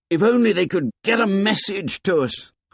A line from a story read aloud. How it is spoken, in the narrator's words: cried Ralph desperately